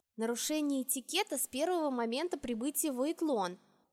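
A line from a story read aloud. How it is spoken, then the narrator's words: Whispered reminder. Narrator (Russian): шепотом напомнила я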